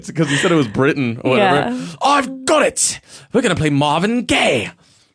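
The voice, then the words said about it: Put-on British accent. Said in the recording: “Is that a British accent? I think it is. It's pretty close.”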